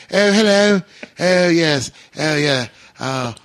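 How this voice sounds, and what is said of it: Bad posh British accent. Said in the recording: “Do our horrible American British ... We all sound like a toff when we do our accent ... a bit of posh”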